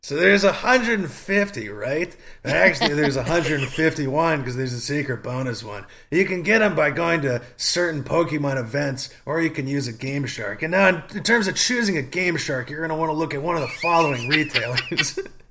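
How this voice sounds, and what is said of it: Spot-on impression of a nerdy kid. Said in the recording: “that was a spot on like impersonation for somebody you've never met before”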